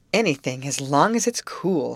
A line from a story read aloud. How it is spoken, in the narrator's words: sighed Grace